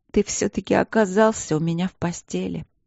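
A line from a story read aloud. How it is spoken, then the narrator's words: Hoarse wheeze. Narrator (Russian): просипела я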